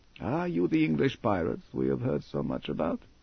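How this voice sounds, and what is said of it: English with unfamiliar foreign accent. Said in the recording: “A strange voice intervened, speaking English with an unfamiliar accent.”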